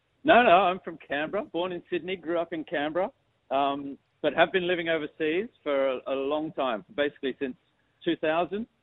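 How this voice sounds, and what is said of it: Strong Australian accent. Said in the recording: “I just detect a very strong accent there ... you sound like you're an Australian now”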